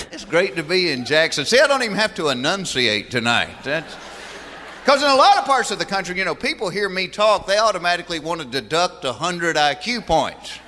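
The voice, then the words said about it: Southern American accent. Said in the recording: “talking about that wonderful Southern accent ... the Southern accent's not the world's most intelligent sounding accent”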